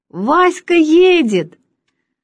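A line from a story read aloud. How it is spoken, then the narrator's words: Child shouting. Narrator (Russian): кричал взъерошенный мальчик лет 8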